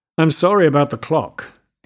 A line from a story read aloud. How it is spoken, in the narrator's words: said